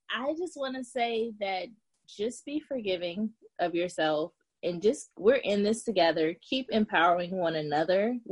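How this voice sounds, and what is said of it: Speaks with a noticeable accent. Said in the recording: “I hope my accent didn't throw hers off so much”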